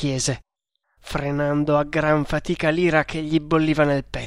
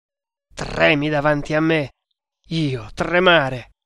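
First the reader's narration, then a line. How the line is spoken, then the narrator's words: Exclaiming, smiling. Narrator (Italian): esclamò lo strangolatore, sorridendo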